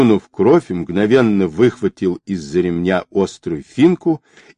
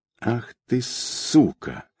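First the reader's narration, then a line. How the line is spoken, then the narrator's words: Through gritted teeth. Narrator (Russian): процедил Яковлев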